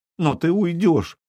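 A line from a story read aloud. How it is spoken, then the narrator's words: Sobbing. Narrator (Russian): всхлипнула Колхульда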